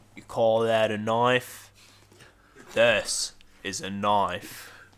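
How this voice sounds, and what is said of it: Put-on Australian accent. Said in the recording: “I can do an Australian accent. ... Do an Australian accent.”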